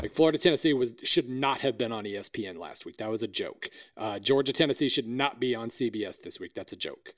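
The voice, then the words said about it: Hoarse voice. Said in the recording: “I'm hoarse and cranky.”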